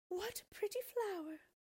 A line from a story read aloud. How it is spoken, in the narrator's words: the woman exclaimed